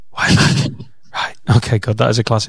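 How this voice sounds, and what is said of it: Whispering. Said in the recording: “I don't know why I'm whispering. I just started whispering”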